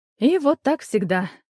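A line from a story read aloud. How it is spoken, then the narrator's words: Sighing. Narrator (Russian): вздохнула Кристина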